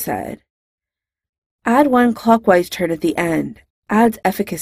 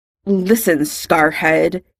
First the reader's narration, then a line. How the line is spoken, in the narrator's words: Draco spat